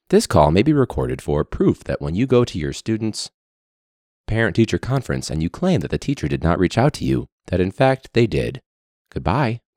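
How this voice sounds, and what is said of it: Formal voiceover announcer voice. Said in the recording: “not so much robot teacher voice, but for sure voiceover voice”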